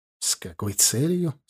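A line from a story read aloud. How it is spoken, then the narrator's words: Plain. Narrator (Russian): спросил Сатчан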